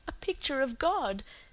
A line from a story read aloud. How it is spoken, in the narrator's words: said Cecily with a sob in her voice